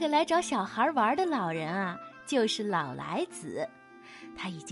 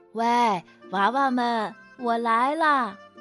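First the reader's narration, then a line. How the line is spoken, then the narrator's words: Old man calling while walking. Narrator (Chinese): 一个白发苍苍的老翁缓缓走了过来，并且一边走一边喊道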